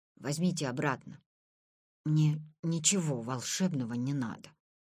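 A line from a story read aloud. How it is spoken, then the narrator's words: Barely audible whisper. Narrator (Russian): прошептал он еле слышно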